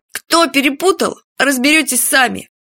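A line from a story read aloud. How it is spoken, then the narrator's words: Snide snort. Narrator (Russian): Уже с прежней ехицей хмыкнул Фадейка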